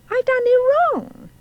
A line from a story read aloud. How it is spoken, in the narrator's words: She cried again